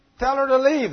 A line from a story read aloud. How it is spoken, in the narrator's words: they said